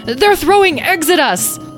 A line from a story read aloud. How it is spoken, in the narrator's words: struck by inspiration, Tom yelled